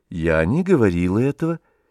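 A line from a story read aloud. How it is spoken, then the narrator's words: Calm. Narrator (Russian): спокойно сказала Варенька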